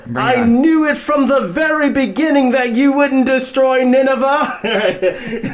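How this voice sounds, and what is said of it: Put-on British accent, yelling. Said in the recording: “it makes them speak with a British accent. And so I'm gonna do my best to mimic it right now ... he's yelling”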